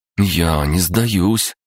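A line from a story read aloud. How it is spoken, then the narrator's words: Timid objection. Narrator (Russian): робко возразила Настя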